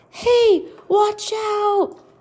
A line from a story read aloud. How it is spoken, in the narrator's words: the people cried